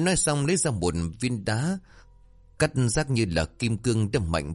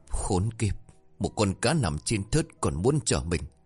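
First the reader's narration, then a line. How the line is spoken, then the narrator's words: Stammering. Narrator (Vietnamese): Hắn lắp bắp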